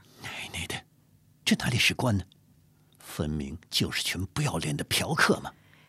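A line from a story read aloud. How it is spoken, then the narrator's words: Muttered through gritted teeth. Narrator (Chinese): 阿贵咬牙小声说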